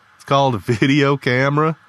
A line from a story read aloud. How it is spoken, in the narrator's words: Lee chuckled